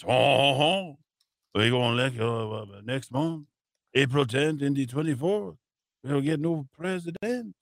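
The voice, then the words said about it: Bad put-on French accent. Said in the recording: “That's a terrible French accent, but I like it.”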